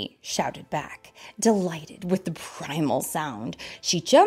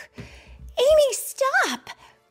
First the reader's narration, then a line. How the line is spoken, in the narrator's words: Claire shouted